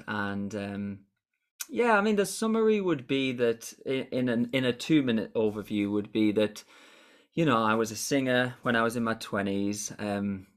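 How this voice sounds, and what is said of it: Northern English Durham accent. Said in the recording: “as you know from the accent ... from Durham originally, so from the north of England”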